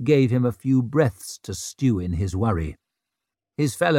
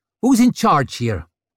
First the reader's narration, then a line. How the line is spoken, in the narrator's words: Vic snapped at him